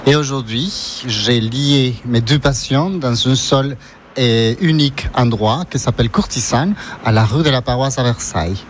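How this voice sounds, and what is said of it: Ecuadorian accent speaking French. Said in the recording (French): “j'ai un accent, je suis d'origine équatorienne”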